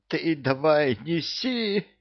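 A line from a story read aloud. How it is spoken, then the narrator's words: Wheezing. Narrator (Russian): просипел Кевин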